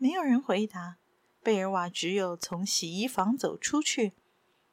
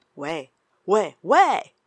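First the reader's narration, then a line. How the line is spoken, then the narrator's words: Loud shouting. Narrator (Chinese): 大声叫道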